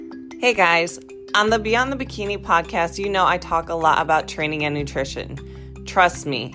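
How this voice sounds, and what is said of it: Usual voice. Nothing is said of it.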